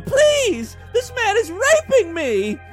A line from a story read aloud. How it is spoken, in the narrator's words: Sharon shouted